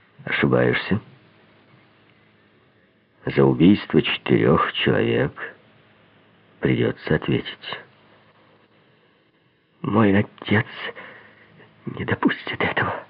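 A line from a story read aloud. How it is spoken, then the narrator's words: Barely audible. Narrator (Russian): Чуть слышно произнесла она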